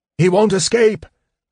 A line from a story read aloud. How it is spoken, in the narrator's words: Sturm shouted